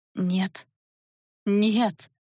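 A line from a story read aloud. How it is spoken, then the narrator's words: Hoarse disbelieving whisper, girl. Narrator (Russian): Сипло, не веря собственным глазам, прошептала девушка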